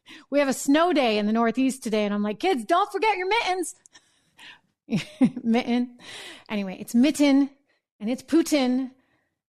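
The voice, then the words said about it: New Hampshire accent. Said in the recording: “it's my darn New Hampshire accent coming out for sure because you ought to hear me say mitten”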